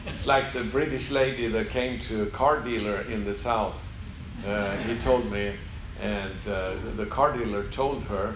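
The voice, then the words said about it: Swedish accent in English. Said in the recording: “I know I speak funny ... I'm not from America ... English is not my mother tongue. So I come from Sweden.”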